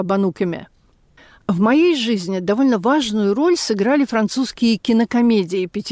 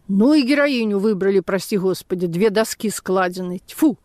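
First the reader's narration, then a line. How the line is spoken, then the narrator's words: Angry speech. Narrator (Russian): парикмахер сказал сердито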